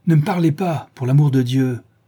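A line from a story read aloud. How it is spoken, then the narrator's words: Angry shout. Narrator (French): cria Dorian, frappant du pied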